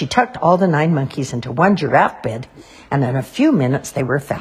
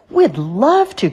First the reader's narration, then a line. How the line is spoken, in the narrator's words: cried all the monkeys at once